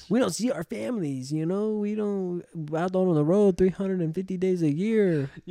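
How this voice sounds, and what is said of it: Put-on Hispanic accent. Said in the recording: “I don't know why I give him a Hispanic accent.”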